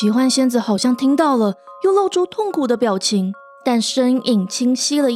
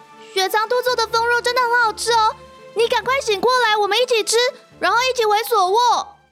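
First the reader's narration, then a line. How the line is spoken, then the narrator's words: Crying out. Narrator (Chinese): 渊羽叫出声了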